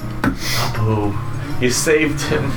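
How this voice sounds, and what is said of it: Character voice. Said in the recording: “because I'm doing this voice, it's hard for me”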